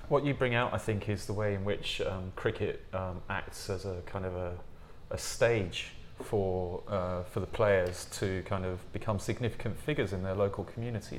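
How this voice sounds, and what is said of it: English accent. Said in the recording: “I'm sure I've said that very badly in my English accent.”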